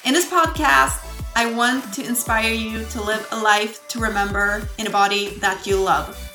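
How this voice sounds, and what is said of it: Swedish accent. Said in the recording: “I'm not a native English speaker ... my lovely Swedish accent”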